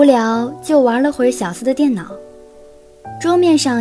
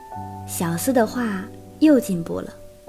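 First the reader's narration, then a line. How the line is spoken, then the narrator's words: Inner admiring thought. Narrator (Chinese): 陆之昂心里不由得赞叹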